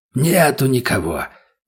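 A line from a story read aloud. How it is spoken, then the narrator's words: Hoarse, raspy voice. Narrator (Russian): голос у него был сиплым и простуженным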